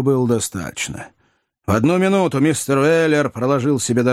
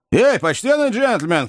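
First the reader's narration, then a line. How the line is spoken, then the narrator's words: Shouted. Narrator (Russian): крикнул Сэм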